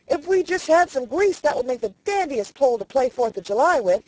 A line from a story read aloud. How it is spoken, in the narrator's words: shouted